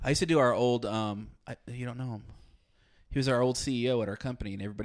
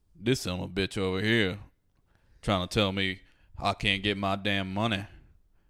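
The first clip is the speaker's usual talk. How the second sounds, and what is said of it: Southern Alabama accent impression. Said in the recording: “He's from Alabama. ... That's how he talks. ... That's a great impression of him.”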